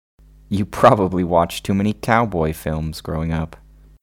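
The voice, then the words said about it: American accent character voice. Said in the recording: “Why do you have an American accent anyway?”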